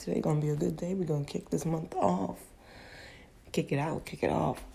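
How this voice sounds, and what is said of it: Cracking, just-woken-up voice. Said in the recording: “sorry for my voice cracking. Just got up”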